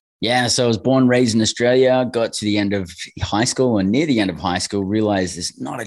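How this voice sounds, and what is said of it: Australian accent. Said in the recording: “the Aussie accent.”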